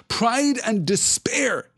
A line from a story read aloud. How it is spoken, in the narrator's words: he cried